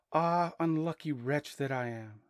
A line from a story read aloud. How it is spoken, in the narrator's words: sighed